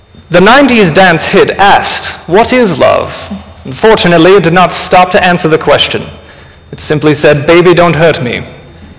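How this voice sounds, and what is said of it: Dry British professor voice. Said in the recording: “really dry British professor ... I'm going to try to do my best impression”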